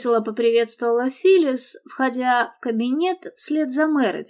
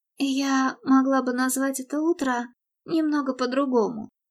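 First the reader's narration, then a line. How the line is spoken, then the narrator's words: Muttering. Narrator (Russian): пробормотала Мередит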